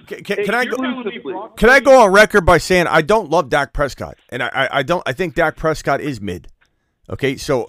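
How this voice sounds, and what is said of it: Yelling, loud heated voice. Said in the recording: “I don't know who I'm yelling at. I don't know who I'm yelling at.”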